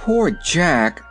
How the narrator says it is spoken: sighed Dorothy

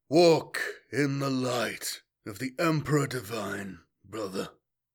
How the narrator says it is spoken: he intoned quietly

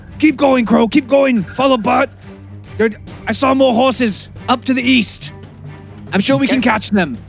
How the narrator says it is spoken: yelling back at him

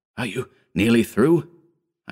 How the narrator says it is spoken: I gasped in desperation

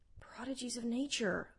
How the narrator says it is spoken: muttered Mahin Banu

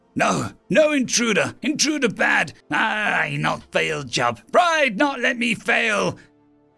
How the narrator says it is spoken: The ego, screaming

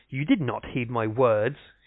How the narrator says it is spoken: said angrily

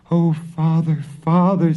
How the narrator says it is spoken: sobbed Marusha

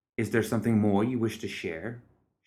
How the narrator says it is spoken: asked in a steady voice

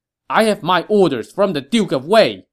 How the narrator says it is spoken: Hua Xin barked

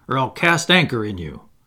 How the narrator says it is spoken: he cried

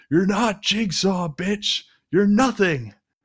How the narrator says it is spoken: Matthews yells at her

